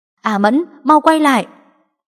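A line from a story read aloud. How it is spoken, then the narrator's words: Alarmed loud shout. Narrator (Vietnamese): Mọi người nhìn thấy lửa bùng lên quanh người A Mẫn thì lập tức hét to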